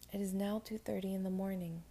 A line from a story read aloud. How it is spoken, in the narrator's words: he said